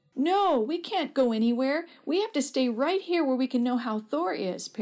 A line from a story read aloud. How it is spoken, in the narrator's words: Perry cried